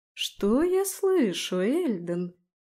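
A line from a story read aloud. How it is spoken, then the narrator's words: Mocking drawl. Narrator (Russian): Насмешливо протянула я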